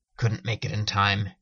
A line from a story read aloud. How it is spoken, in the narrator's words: grunted